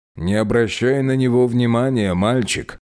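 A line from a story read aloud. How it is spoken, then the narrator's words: Amused snort. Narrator (Russian): хмыкнул он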